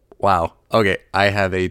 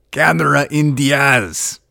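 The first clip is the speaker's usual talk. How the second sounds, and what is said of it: Poor Arnold Schwarzenegger impression. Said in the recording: “got to use my Arnold Schwarzenegger voice ... terrible Arnold Schwarzenegger impression.”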